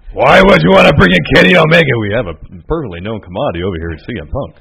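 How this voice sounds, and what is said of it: Poor Vince McMahon impression. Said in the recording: “my poor Vince impersonation”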